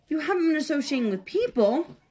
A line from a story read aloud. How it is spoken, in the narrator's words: cried his frightened mother